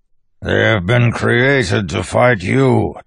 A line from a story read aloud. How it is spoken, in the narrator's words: Tensoon growled from the ground, where he wrestled with one of the creatures while others tore at him